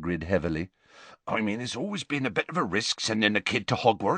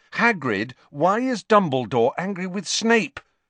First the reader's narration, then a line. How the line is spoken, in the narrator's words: Harry asked loudly